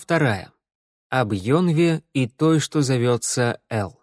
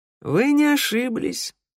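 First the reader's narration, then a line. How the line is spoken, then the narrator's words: Sad reply. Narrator (Russian): грустно ответил Кобзарь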